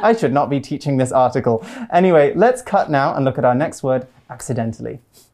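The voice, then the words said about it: British accent. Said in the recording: “I thought British people say marry and then merry ... my accent kind of hides it”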